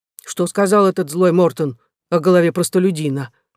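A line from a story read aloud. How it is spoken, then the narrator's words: Displeased question. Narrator (Russian): спросил он недовольным тоном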